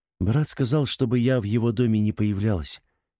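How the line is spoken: Sad reply. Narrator (Russian): грустно отозвалась Хайсира

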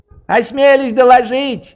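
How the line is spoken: Shouted after someone. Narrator (Russian): прокричал вслед ему Швейк

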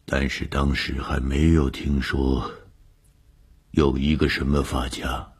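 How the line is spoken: Trembling voice. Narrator (Chinese): 何教授的声音颤抖了一下，接着说

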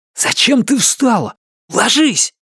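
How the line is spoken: Hiss. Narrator (Russian): прошипел он

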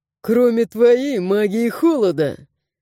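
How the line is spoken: Guard, chuckling. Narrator (Russian): хохотнул стражник

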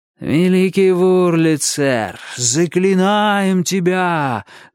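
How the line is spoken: Chanting. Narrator (Russian): нараспев заговорил Авалон

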